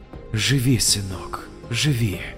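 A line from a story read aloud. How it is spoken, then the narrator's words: Quiet whisper. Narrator (Russian): тихо прошептала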